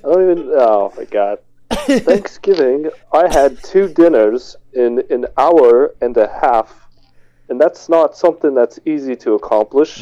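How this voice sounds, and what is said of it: Put-on posh British accent. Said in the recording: “Keep the British going... High society.”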